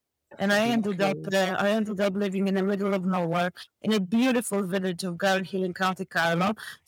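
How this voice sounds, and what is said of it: Polish-accented English. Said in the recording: “that is not a culture accent that I'm hearing ... I'm purely Polish girl”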